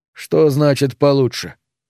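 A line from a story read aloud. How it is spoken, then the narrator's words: Plain. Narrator (Russian): спросил он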